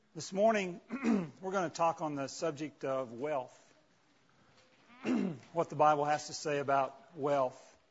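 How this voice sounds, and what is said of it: Strained, fading voice. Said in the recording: “I noticed during break that I was losing my voice”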